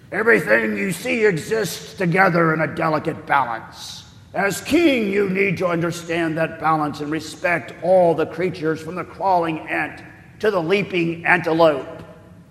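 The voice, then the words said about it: Put-on lion character voice. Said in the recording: “I'm going to try to do a lion voice”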